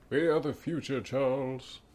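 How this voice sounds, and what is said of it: Ian McKellen impression. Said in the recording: “That was a great impersonation. ... I want Ian McKellen to narrate my life.”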